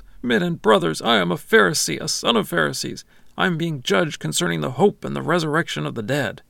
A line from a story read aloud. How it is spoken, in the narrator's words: Paul shouts